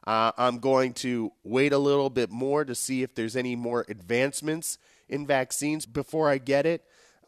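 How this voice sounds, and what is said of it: Deeper, sickly-sounding voice. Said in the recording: “my voice sounds somewhat deeper and a little bit more sickly than it usually does”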